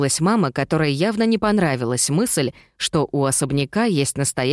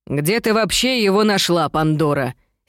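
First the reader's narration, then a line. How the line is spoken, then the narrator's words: Angry question. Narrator (Russian): сердито спросила тётя Шарлотта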